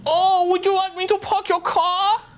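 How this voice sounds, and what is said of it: Put-on Asian accent. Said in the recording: “Is that sound Asian or? ... That's pretty good.”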